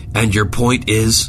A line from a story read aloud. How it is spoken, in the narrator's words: Zimmerman barked into his headset